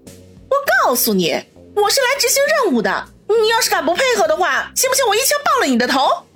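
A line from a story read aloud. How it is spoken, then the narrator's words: Loud and furious. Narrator (Chinese): 叶小楠大怒，大声的说道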